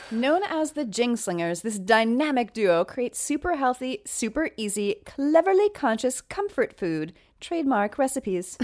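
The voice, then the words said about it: Announcer-style voiceover voice. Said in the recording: “I love how you said that in your voiceover voice.”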